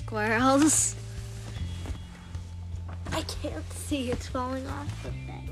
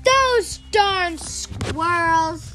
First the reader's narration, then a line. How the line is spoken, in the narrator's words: yelled Old Man Fuquier